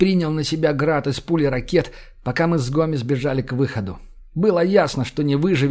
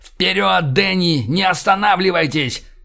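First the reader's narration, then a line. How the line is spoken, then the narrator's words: Shouted. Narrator (Russian): прокричал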